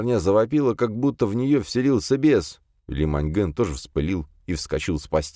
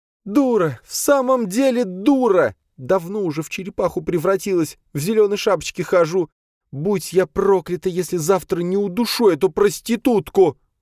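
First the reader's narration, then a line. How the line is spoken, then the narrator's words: Furious screaming. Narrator (Russian): Вопила пятерня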